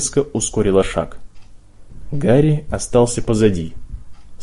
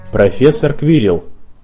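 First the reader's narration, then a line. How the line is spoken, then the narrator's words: Very formal voice. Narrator (Russian): произнес Драко крайне официальным голосом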